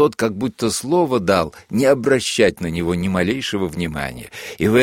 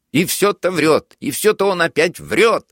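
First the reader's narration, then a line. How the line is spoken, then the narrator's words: Desperate shout. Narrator (Russian): закричал Булкин в каком-то отчаянии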